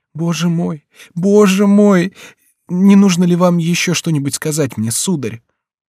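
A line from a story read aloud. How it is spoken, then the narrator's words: Choking, sobbing voice. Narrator (Russian): задыхаясь от слез и рыданий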